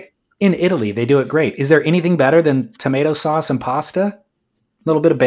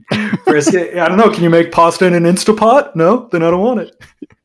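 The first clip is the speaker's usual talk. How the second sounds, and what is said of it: Imitates another person's voice. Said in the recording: “Is that your impression of me? ... It must be spot on because it kind of hurt.”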